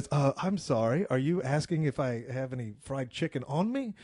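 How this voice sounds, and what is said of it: Aristocratic put-on accent. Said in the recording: “in that aristocratic ... accent of his”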